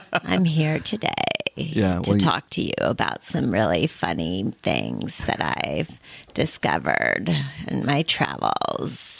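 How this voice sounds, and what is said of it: Exaggerated vocal fry. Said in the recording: “vocal fry ... it starts out like this, and then ends like this”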